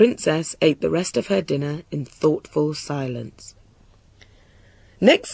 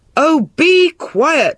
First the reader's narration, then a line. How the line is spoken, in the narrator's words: roared the king